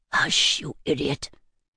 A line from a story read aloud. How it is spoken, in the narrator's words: whispered someone from behind me